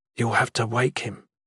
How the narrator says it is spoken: one of the soldiers whispered

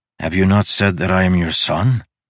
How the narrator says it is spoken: She sighed

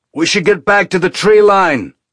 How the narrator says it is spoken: Amos leaned close, and shouted in her ear

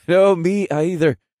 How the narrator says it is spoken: Riondale said as he joined me in my laughter

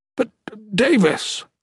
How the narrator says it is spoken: the pure man exclaimed

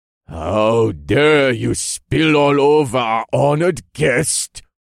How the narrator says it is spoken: the Lord of Northwatch boomed

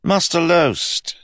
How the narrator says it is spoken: said Rye cheerfully

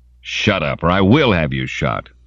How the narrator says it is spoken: Simon snapped

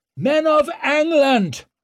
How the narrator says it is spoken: he roared

